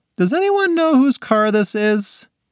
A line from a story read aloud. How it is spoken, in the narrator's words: Selena called out